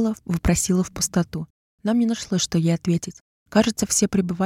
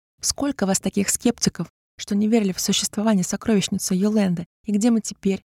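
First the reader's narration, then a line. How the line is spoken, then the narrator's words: Almost insane laughter. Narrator (Russian): Почти безумно рассмеялась Жульена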